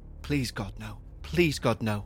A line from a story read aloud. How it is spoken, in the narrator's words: muttered over and over again under her breath